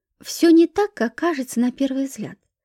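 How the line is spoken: Calm. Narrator (Russian): спокойно сказала я

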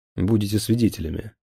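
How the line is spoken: Stern. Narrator (Russian): строго сказал я

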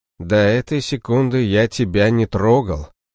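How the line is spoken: Calm. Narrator (Russian): спокойно произнес я

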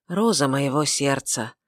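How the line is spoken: Wistful, grieving whisper. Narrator (Russian): прошептал он, снова вспоминая свою жену, свою потерянную любовь

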